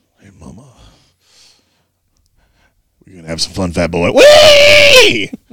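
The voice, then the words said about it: Beetlejuice character voice. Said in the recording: “He was doing a Beetlejuice voice.”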